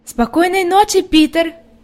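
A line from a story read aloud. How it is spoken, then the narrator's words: Shout. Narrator (Russian): крикнула Хайди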